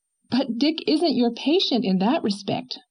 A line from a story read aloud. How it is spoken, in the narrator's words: cried Anne